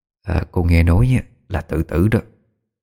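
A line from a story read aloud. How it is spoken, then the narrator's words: Soft whisper. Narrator (Vietnamese): Đoàn bà thì thầm nho nhỏ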